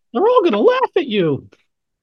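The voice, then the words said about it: Impression of Carrie's mother. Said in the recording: “the voice of, Carrie's mom in your head in the movie Carrie ... It's not a very good impression.”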